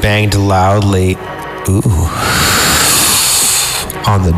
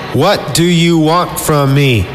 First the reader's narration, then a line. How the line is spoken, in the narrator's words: I shouted